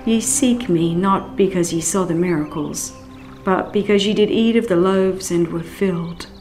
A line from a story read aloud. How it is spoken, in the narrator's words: He sadly said